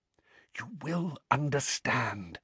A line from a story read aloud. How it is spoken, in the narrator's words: whispered Dumbledore